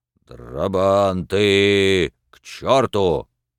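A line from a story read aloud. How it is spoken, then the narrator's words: Sudden terrifying bass command. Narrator (Russian): Вдруг Кожин скомандовал своим ужасающим басом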